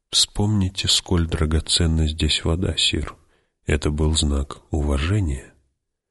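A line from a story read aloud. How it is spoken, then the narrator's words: Whispered. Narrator (Russian): он прошептал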